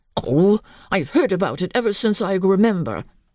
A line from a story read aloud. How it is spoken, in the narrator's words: he answered crossly